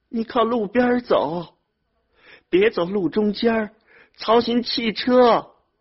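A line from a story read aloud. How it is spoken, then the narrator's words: Tearful shout. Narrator (Chinese): 兰花 哭着对远去的儿子喊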